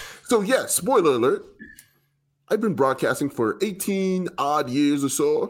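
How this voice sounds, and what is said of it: Usual voice. Nothing is said of it.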